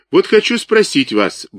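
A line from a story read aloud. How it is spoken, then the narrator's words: Brisk, cheerful. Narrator (Russian): бодро начал Агеев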